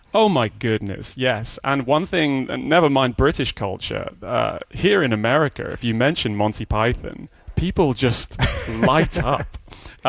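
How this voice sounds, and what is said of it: British accent. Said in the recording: “we hear your accent, still as vibrant and present in British culture”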